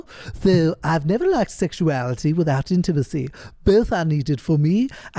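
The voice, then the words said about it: Cartoon character voice. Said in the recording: “I didn't know you could do a Stewie imitation. ... let's try and switch into Stewie”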